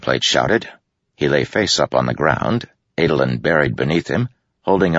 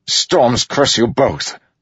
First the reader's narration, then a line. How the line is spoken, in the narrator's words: Greenplate shouted inside his helm